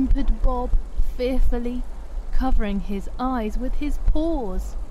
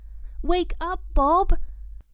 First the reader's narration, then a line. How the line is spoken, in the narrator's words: cried Coco in alarm